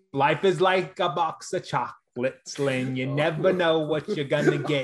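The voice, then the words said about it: Bad movie-character impression, slipping into Boston. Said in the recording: “you just went Forrest Gump on me ... I'm going into a Boston accent ... a bad Forrest Gump accent”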